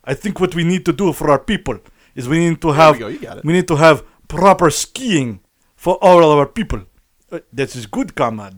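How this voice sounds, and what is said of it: Put-on Russian accent. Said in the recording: “I don't know how to do a Russian accent.”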